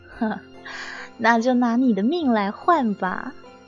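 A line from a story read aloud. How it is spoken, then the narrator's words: Laughing. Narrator (Chinese): 布谷女笑着说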